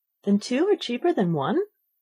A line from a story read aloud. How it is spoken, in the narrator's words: Alice said in a surprised tone